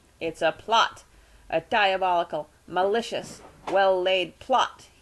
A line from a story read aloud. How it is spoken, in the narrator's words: yelled